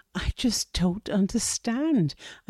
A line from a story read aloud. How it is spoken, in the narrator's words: I said, pleading